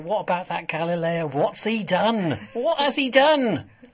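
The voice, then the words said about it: Put-on classic American accent. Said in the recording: “I dropped into a classic American accent there... Very well done”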